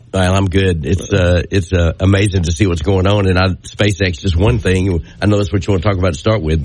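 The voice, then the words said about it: Deep, froggy head-cold voice. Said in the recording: “I'm sound like I'm an FM broadcaster today... I picked up my summer head cold... I'm sounding froggy this morning. I put the deep voice in there.”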